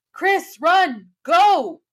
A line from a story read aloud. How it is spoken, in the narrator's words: I yelled